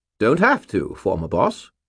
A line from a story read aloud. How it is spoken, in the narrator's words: Bob said cheerfully